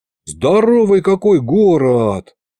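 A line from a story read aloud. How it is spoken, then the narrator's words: Envious drawl. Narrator (Russian): С нотками зависти протянул я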